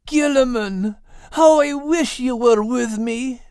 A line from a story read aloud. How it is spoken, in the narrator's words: Max cried